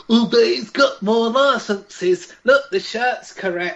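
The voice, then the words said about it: Imitates another person's voice. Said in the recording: “that must be an impression of Guy ... that was my best impression of Guy ... it sounds nothing like him”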